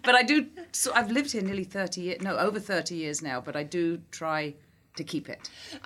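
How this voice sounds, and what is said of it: South London English accent. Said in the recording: “It's South London. It's sort of a non... It's a non accent... the default accent”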